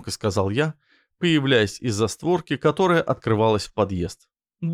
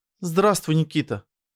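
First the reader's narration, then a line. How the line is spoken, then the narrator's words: Guilty sigh. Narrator (Russian): вздохнула виновата староста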